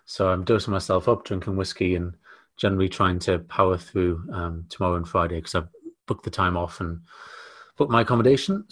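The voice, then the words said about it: Voice sounds like oncoming cold. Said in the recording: “As you can possibly hear from my voice, I'm on the edge of a bit of man flu.”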